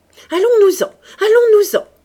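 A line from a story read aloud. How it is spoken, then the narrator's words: Shout. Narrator (French): cria Clotilde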